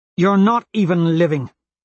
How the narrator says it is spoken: she snaps

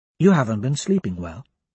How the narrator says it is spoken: she says

